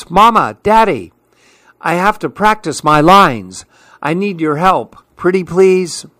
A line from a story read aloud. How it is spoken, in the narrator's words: She shouts